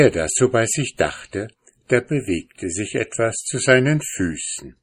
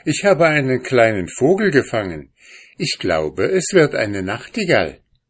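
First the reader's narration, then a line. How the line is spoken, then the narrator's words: Calling out. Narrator (German): rief er ihr zu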